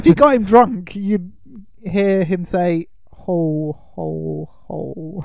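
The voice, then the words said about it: Poor slow imitation of another's voice. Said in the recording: “That was a terrible Alan Rickman impression. I can't do it. He talks very slowly.”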